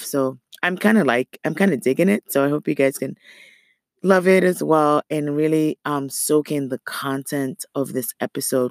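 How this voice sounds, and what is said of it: Raspy, slightly off voice. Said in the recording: “my voice is a little raspy ... my voice is a little off”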